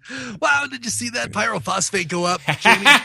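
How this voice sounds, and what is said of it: Weak Adam Savage impression. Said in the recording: “That's not a very good impression, but he laughs funny.”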